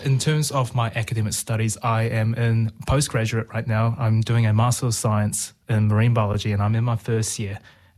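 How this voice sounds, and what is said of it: Mild New Zealand accent. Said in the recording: “I don't have a unique accent. Mine sounds a little bit muddled, but I am originally from Aotearoa, New Zealand”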